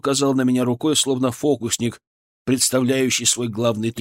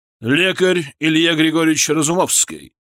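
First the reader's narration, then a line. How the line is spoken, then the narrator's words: Booming voice filling hall. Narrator (Russian): Голос барона прогремел на весь зал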